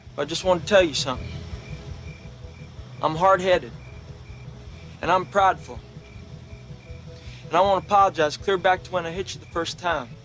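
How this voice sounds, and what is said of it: Southern American accent. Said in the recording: “dropped his Brooklyn accent for a Southern accent”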